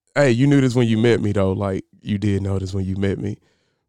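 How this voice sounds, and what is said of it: Mock sexy voice. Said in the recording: “They get all sexy voice, too.”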